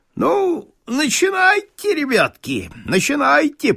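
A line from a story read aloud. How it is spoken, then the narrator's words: Squeaky voice. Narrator (Russian): пропищал Моргач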